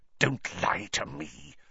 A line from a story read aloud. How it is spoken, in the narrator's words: Snape hissed